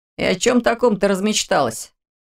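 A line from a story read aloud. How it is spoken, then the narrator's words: Chuckling. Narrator (Russian): хохотнул Орс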